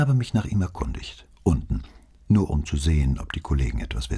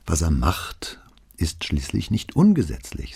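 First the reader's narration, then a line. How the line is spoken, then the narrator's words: Plain. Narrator (German): sagte Brunetti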